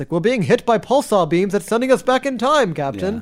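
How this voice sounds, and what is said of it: Stiff android voice, old-timey radio tone. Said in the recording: “my Data impression. It sounded like C-3PO there. ... He sounded more like an old timey radio voice.”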